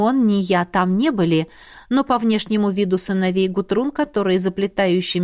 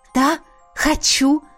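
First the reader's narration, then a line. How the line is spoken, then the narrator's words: Exclaimed. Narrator (Russian): воскликнула я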